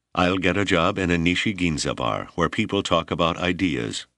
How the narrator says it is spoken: said flatly

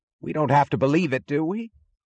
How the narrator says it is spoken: cried James Taggart

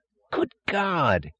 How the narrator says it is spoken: yelled Taggart

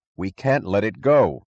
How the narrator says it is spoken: he cried

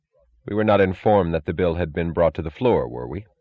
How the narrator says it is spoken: he asked, his voice controlled and dry

